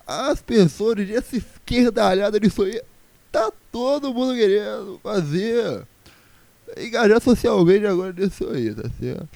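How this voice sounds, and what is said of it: Imitates another person's voice. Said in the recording (Portuguese): “Deixa eu ver uma imitação boa minha aqui ... mas imitando o Bolsonaro ... Nossa, tá muito ruim isso.”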